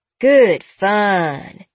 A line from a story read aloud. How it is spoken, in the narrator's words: she drawled